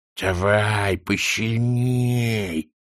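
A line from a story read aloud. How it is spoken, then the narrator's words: Lisping. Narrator (Russian): прошепелявила она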